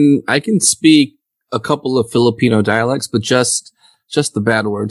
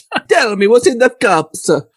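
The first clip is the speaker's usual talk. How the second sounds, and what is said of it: Put-on Italian accent. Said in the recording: “do it in your best Italian accent? ... Oh, there we go.”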